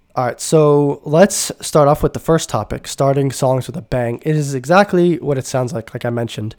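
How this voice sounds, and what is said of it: Nasal, congested voice. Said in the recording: “I sound kind of nasally, I am... I've been a bit sick the past few days... my nasal system's been messed up. So if I sound a bit nasally”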